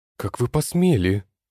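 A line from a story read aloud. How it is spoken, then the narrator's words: Barked. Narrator (Russian): рявкнула Катюша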